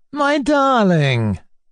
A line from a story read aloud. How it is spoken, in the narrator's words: exclaimed Mr